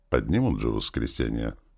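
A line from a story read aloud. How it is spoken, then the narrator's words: Displeased grumbling general. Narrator (Russian): недовольно пробурчал генерал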